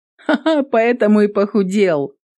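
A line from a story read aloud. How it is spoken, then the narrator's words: Laughing. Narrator (Russian): засмеялась Эвелин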